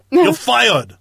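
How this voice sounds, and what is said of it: Imitates another person's voice. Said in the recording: “That also is a great impersonation. ... It's a terrible”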